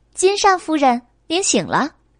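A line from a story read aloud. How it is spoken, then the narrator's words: Laughing. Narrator (Chinese): 他们笑道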